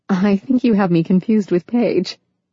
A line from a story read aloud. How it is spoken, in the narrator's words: Emily said with a laugh